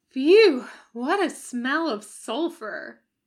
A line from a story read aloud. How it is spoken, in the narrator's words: Crowley moaned like an injured cow